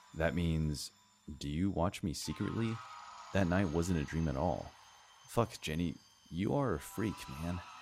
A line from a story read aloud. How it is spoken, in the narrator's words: I replied in an annoyed tone